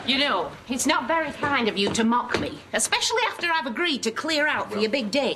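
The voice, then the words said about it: Exaggerated put-on American accent. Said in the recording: “I'm learning to speak American ... And who is your tutor? A drag queen? ... that's the problem when I speak American. I don't know what to do with my R's.”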